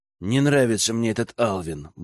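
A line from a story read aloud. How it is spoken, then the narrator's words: Grumble. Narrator (Russian): буркнул Герман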